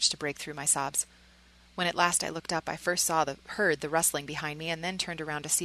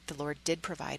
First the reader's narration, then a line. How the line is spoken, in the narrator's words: whispered over the blaze